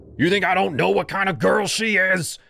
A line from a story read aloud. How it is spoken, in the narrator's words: he shouted